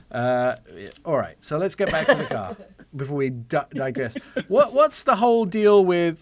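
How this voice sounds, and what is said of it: Non-American English accent. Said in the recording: “Just going to have to start talking like an American ... I have no skills whatsoever apart from this accent”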